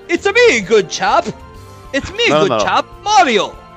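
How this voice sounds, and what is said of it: Mario voice with British accent. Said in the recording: “Mario with a British accent”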